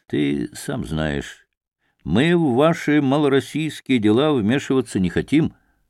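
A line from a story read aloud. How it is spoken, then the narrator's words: Plain. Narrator (Russian): ответил Василий Васильевич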